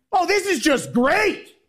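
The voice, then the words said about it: Loud angry-sounding boss voice. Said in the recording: “boss who sounds angry no matter what they're talking about ... It's all the same volume ... absolutely nails the impersonation of his boss”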